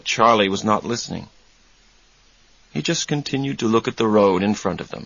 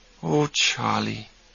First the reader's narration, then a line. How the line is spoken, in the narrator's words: Susanna said softly